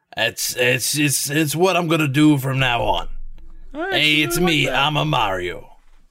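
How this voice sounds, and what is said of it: Gruff Brooklyn accent, Bob Hoskins impression. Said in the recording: “Bob Hoskins impression ... a gruff Brooklyn accent ... my rough Brooklyn accent ... That's actually not bad.”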